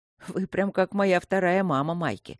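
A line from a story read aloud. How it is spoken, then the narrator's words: Mocking. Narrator (Russian): насмешливо проговорил Люк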